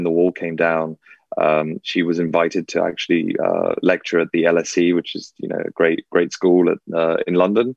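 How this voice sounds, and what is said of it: English accent. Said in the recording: “this English accent”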